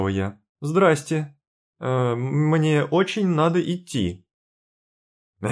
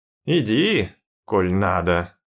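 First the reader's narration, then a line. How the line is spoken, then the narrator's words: Strained creaky voice. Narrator (Russian): проскрипел он, словно через силу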